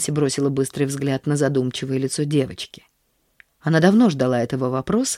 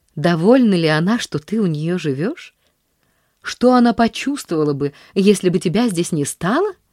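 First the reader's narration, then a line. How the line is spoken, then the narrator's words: Indignant exclamation. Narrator (Russian): воскликнула Нэнси негодующе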